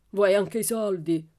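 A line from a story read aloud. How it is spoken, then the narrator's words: Growling. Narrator (Italian): ringhiò Laban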